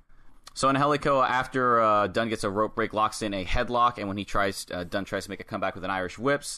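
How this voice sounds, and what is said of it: Congested voice, can't speak loudly. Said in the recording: “I'm nursing a very bad cold right now... my voice isn't the, I can't go as super loud as I normally would”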